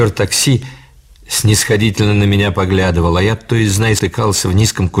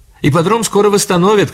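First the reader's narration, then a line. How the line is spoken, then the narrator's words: Shouted from car. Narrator (Russian): крикнула Элли из машины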